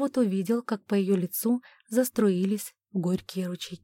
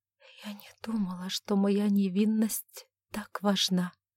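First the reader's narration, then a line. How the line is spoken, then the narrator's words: Whisper. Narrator (Russian): прошептала она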